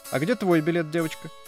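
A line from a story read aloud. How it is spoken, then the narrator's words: Chorus shouting. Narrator (Russian): все хором закричали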